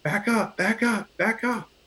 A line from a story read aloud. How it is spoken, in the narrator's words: one of the officers yells